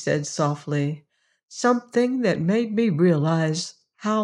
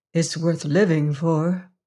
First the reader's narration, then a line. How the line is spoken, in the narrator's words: answered Emma McChesney gravely